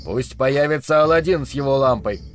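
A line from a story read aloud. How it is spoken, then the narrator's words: Barked. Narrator (Russian): рявкнул он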